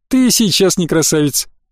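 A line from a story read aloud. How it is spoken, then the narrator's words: Laughing. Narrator (Russian): Эля засмеялась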